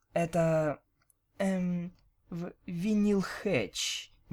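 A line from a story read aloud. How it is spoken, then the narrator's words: Uncertain small mare. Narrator (Russian): неуверенно сжалась маленькая кобылка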